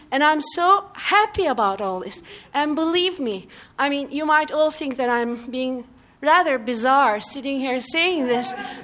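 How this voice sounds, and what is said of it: Non-American foreign accent. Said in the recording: “a person with my accent and the fact that I'm not even an American”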